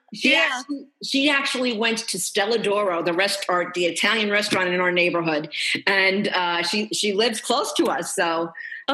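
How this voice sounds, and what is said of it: Queens New York accent. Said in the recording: “I have the Queens accent. I'm like the stereotypical Italian from Queens, like the nanny, Drescher.”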